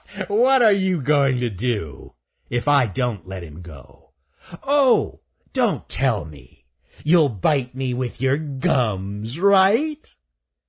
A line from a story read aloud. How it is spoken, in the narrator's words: Raker laughed at Shelby and said